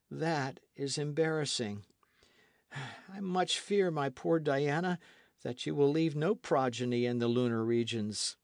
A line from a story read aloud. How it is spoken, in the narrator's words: added he in a piteous tone